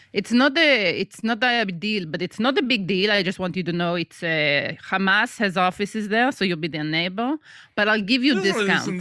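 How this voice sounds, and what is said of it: Put-on accent that sounds Russian. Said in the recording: “there's like a Jewish Israeli landlord, Moshe or something ... wait, I'm sounding Russian.”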